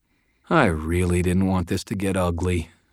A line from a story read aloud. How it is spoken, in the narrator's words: I said sadly